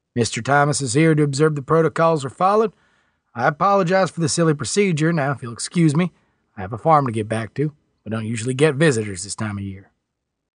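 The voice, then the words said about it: Slight country accent. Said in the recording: “he said with a slight country accent”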